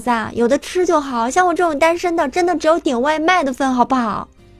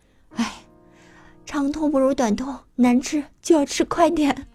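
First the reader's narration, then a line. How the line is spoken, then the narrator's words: Sighing. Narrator (Chinese): 我嫂子叹了口气说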